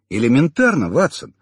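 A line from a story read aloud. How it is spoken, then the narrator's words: Smirking grunt. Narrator (Russian): хмыкнул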